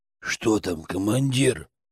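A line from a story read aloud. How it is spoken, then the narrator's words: Whisper. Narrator (Russian): прошептал Батер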